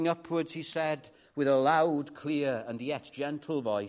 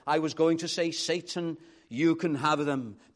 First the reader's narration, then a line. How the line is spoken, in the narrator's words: after 30 seconds of dead silence, he cried